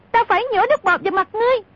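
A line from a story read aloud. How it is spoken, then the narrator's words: Shrill scream. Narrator (Vietnamese): Cúc Kiếm thét lên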